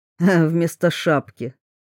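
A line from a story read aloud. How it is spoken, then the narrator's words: Snorted. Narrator (Russian): хмыкнул Брюс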